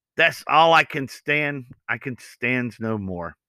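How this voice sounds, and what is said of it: Bad Popeye impression. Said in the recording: “Popeye ... Sorry for the bad impersonation.”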